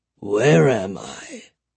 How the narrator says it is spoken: the old man croaked

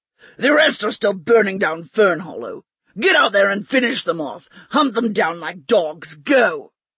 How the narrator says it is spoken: Bligh barked an order

